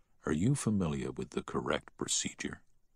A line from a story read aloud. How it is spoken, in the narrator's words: he heard the doctor whisper to the nurse